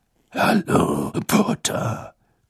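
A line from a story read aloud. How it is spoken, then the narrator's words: Growling. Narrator (German): knurrte Moody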